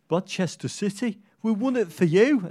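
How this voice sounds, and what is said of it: Poor put-on West Brom accent. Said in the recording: “It's a terrible West Brom accent, isn't it?”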